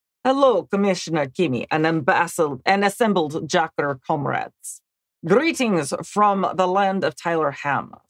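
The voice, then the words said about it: Exaggerated put-on Russian accent. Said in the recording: “Please read the first paragraph in the best/worst Russian accent ... I love the Russian accent”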